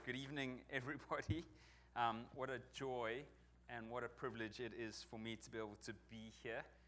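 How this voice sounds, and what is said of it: Non-local foreign accent. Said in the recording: “as you may detect from my accent, I'm not from around here”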